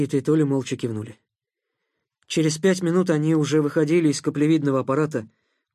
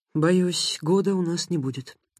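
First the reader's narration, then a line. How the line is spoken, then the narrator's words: Quiet. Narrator (Russian): тихо сказал инженер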